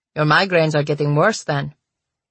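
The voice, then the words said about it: Man's voice with Slavic accent. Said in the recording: “said a man with a Slavic accent.”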